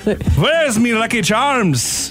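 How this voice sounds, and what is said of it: Put-on Irish accent, pirate-like. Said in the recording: “Who wants to talk sexy in their Irish accent? ... It's just going to sound like a pirate. ... That does sound kind of like a pirate.”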